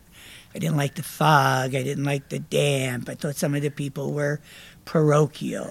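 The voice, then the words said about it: New Jersey accent. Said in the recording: “Big accent, New Jersey yeah. accent. I still have it, but it was stronger.”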